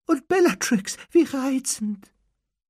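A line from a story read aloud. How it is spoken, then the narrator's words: Squeaky voice. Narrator (German): sagte mit quiekender Stimme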